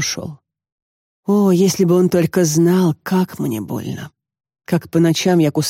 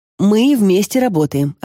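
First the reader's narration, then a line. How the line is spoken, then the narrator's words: Plain. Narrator (Russian): ответила я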